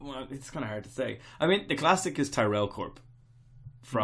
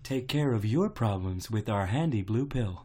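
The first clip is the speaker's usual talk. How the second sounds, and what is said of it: Soothing generic corporate advert lady voice. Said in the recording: “generic English lady or a generic American lady accent ... Megacorp lady's voice. It's soothing.”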